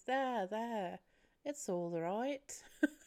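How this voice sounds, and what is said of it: Clumsy put-on accent. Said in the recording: “What was that accent? ... I can't do accents for the life of me”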